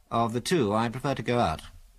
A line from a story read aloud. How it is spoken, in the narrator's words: said Biggles